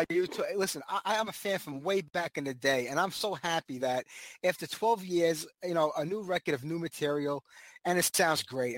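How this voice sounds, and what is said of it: New York City accent. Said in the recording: “somewhere in the eastern seaboard of the U.S. then, judging by your accent ... New York City ... you can't hide the accent no matter how hard you try”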